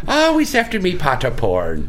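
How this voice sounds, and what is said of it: Put-on Irish leprechaun accent. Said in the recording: “I like that accent ... Sounds like the leprechaun.”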